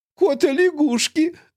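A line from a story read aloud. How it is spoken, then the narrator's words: Giggling. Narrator (Russian): мадам Тиффани хихикнула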